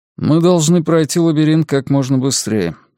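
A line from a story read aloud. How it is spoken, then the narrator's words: Dry tone. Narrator (Russian): сухо говорит Чингис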